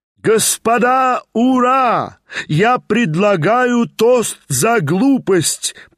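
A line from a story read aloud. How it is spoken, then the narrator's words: Frenzied defiant shout. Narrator (Russian): прокричал Степан Трофимович уже в совершенном исступлении, бравируя залу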